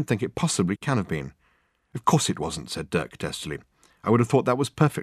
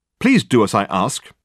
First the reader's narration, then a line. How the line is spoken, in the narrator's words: he snapped angrily